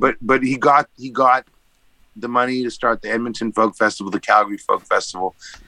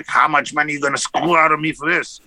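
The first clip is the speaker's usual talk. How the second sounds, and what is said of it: Imitated crazy German accent. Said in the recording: “he had this crazy German accent.”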